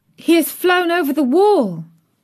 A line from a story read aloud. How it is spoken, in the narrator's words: Mary cried out